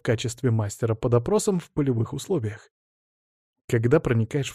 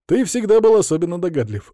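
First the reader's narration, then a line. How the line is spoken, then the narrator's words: Wry snort. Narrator (Russian): хмыкнул я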